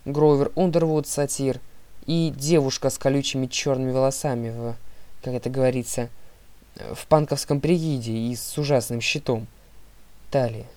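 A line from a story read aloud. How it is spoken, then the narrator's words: Plain. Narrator (Russian): сказал Лука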